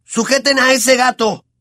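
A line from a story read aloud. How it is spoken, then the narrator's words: Shout. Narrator (Spanish): gritó Ron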